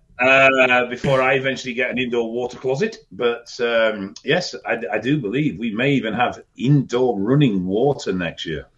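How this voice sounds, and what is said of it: British accent. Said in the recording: “accent is how I get my uh, how I get any culture in my life... some sort of very sophisticated uh, British program”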